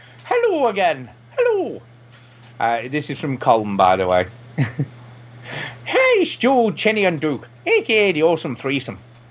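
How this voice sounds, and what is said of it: A poorly done put-on accent. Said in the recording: “I've just got to get the right accent ... Now, that accent's just terrible.”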